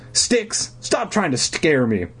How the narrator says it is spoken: I shouted angrily

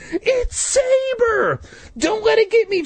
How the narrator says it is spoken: Jay shrieked

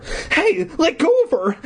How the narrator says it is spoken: Eddie cried

